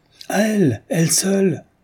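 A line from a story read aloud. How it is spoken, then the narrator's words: Exclaiming. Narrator (French): s'écria Rezov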